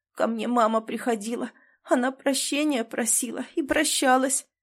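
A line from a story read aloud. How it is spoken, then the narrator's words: Tearful. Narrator (Russian): сквозь слезы рассказывал Миша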